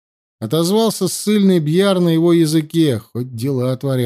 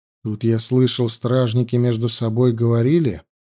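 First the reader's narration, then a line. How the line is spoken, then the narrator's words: Quiet. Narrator (Russian): тихо произнес Андема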